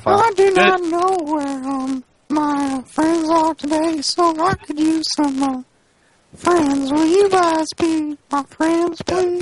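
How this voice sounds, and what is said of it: Family Guy old man impression. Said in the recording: “Is that the old guy from Family Guy? ... That was a pretty good impersonation ... Just funny voice ... With a little funny voice.”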